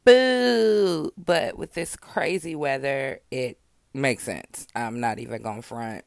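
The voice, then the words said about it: Hoarse, fading voice. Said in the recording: “Excuse how I sound. I think I'm losing my voice.”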